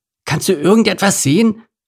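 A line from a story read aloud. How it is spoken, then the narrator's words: Called out. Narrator (German): rief er Gitter der Giraffe zu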